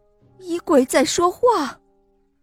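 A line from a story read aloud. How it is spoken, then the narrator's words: Shouting. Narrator (Chinese): 管家喊道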